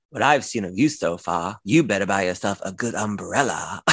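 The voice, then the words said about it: Imitating a character's accent. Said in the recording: “I'm going to try to say it in her accent.”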